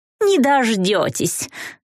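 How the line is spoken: Giggle. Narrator (Russian): Вика хихикнула

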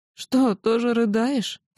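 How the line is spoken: Sobbing question. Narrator (Russian): всхлипнув, спросила она

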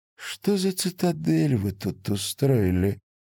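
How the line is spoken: Very quiet, menacing. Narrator (Russian): Белая говорила очень тихо и с такой угрозой

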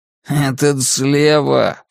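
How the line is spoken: Snorting. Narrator (Russian): фыркнул Джордж

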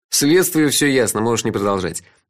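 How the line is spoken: Laughing. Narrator (Russian): рассмеялся я

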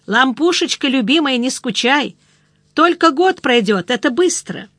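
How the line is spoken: Shouted. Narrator (Russian): он крикнул

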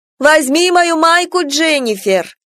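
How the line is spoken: Shouted from another room. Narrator (Russian): крикнула мне из ванной

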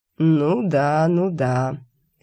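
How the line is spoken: Feigned belief. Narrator (Russian): сделал вид, что поверил демон

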